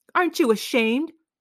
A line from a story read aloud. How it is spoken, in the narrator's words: the mother yelled at her